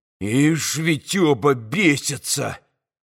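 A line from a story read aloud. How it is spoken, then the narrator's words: Surprised hiss. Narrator (Russian): прошипел Ракитин, с удивлением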